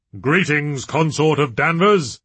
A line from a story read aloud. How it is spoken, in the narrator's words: he boomed